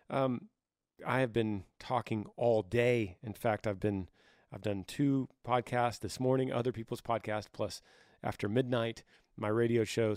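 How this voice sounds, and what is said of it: Hoarse voice. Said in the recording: “So now I'm a little bit hoarse, but I kind of live in a constant state of hoarse voice”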